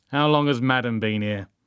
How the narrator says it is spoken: Joan said, her voice suddenly turning hard

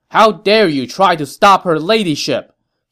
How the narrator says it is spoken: Zhou Shan shouted

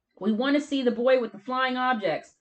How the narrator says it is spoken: a voice yelled from the other side

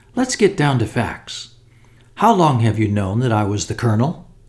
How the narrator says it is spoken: said Sir Eustace cheerfully

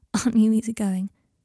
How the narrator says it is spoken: said Potter, with an affectionate laugh

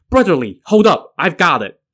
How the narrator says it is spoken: Yan Qing came running after him with weapons in hand, shouting

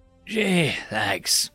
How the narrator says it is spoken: he grumbled

